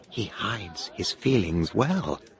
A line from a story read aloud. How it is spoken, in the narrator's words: Eliza said to me quietly